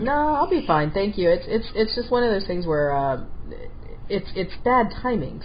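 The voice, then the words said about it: Congested voice, less peppy than usual. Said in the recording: “I've got a head cold ... my voice is like, it's not the normal peppy, you know, voice that you hear.”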